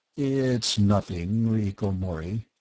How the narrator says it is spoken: Bart mumbled

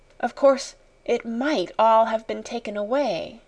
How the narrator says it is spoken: she whispered, trying to be brave

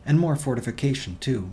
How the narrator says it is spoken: Ryanson snapped

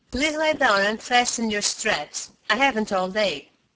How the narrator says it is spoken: the Mentorian said irritably

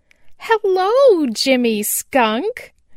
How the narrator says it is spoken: cried Chatterer the Red Squirrel

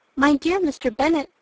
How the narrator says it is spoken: replied his wife

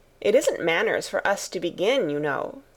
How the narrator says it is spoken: said the rose

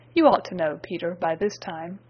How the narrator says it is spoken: said he

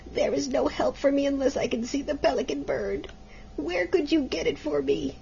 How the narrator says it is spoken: groaned the mother

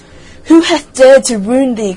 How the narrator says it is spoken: cried the giant

